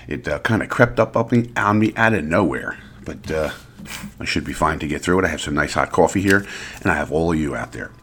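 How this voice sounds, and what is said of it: Slightly congested voice. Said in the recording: “I have a little bit of a cold. You can probably hear it.”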